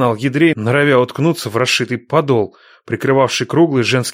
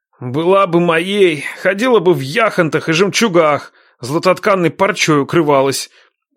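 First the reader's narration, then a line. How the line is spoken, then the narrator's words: Prince's wheeze. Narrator (Russian): просипел князь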